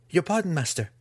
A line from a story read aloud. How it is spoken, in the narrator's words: the student pleaded